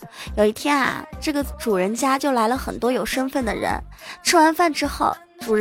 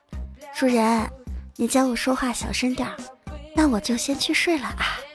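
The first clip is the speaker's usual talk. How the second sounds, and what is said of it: Soft, quiet whispered voice. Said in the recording (Chinese): “凑近男主人的耳边轻轻的说道”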